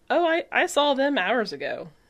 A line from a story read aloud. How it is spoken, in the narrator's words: Edda says, laughing